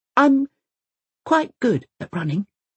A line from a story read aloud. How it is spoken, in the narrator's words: he says quietly